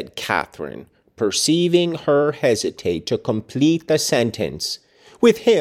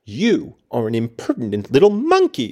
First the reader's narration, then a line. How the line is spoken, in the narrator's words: exclaimed Mrs